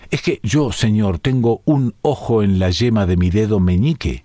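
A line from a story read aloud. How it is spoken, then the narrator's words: Plain. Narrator (Spanish): dijo el genealogista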